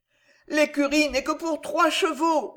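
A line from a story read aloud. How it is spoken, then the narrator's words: Moaning. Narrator (French): gémit l'aubergiste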